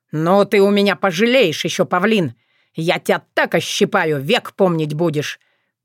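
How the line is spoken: Through gritted teeth. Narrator (Russian): процедил уважаемый Павлюченко

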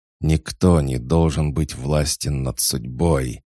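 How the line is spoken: Near growl. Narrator (Russian): едва ли не прорычал Хаджар

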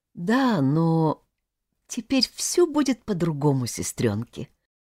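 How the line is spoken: Trembling voice. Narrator (Russian): Дрожащим голосом произнесла Тата

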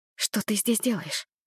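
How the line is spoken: Whisper. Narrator (Russian): Перешла я на шепот

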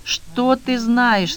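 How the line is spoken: Moaning. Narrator (Russian): стонала Вера

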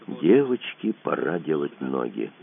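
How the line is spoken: Quiet command. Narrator (Russian): Тихо скомандовал Кацуба

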